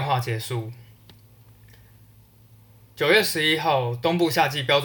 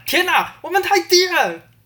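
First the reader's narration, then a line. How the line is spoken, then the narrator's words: Sudden shout. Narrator (Chinese): 他突然大喊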